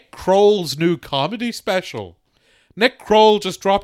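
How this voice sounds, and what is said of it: Usual voice. Nothing is said of it.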